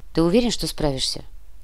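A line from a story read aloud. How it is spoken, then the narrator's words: Quiet question. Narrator (Russian): тихо спросил Матвей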